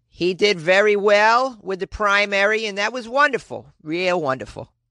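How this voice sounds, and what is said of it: New Hampshire accent. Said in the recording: “This is my impression of this Marilyn lady. ... That's how, like, people in New Hampshire talk, usually.”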